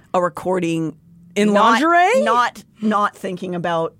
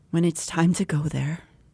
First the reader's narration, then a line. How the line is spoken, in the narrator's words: I said quietly